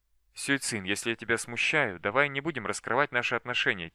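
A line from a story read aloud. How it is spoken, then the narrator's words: Quiet suggestion. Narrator (Russian): тихо предложил Дзянь-Тянь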